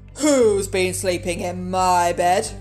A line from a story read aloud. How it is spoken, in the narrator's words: growled Daddy Bear in his great gruff voice